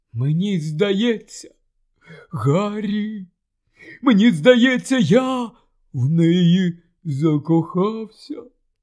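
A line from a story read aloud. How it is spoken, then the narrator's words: Choked confessional mumble. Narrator (Ukrainian): здушеним голосом промимрив, зізнаючись, Рон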